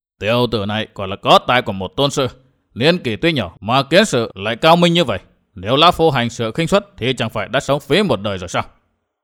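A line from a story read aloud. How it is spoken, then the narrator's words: Muttering. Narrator (Vietnamese): Tà Kiếm không cười lớn cũng chẳng tán tụng, lão chỉ lẩm bẩm nói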